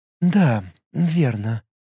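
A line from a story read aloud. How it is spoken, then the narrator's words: Quiet. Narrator (Russian): сказала она тихо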